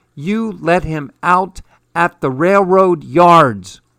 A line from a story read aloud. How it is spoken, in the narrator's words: was screeching